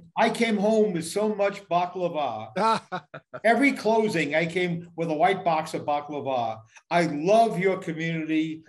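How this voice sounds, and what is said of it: Distinct New York accent. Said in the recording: “we have distinctly New York accents in the way we say certain words”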